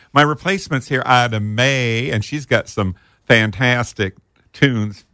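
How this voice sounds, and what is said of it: Slight country twang. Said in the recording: “Listen to you twang. ... Yeah, I got a little twang.”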